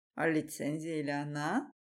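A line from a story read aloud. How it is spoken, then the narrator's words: Mocking older man. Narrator (Russian): Насмешливо оглядывает меня этот седой усатый мужчина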